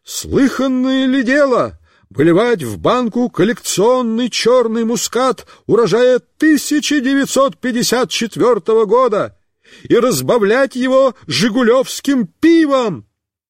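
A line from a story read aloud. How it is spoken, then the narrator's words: Shouting. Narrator (Russian): Он кричал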